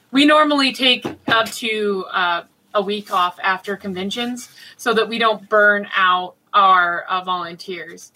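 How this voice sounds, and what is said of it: Hoarse, fading voice. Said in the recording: “I'm losing my voice because I spent 14 hours talking one day on stream”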